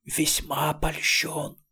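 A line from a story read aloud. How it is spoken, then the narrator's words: Strangled hiss. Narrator (Russian): прошипел сдавленный голос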